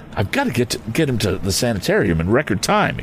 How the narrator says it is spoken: exclaimed Tom

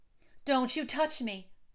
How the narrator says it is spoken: she cried

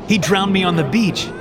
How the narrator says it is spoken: Allison cries

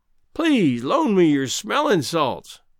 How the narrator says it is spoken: pleaded Greenbrier

